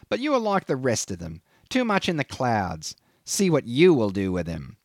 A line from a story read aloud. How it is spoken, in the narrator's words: he sneered